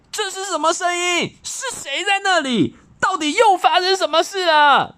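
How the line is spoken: Angry roar. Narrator (Chinese): 他气得大吼

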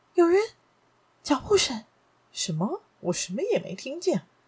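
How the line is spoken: Sudden hushed cry. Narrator (Chinese): 雷利小姐突然低声地叫道

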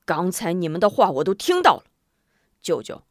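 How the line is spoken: Angry. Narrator (Chinese): 门霸怒道

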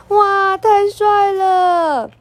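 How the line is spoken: Excited shout. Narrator (Chinese): 他忍不住大叫

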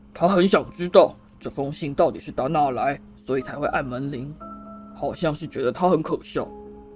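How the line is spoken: Through gritted teeth. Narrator (Chinese): 他咬牙切齿地说

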